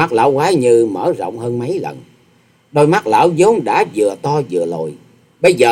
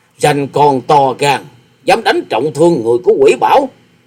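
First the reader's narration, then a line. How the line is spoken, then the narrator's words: Old man's snorting shout. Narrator (Vietnamese): lão quái nhân chợt hừ một tiếng rồi quát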